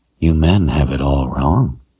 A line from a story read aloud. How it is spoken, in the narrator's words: said in a throaty voice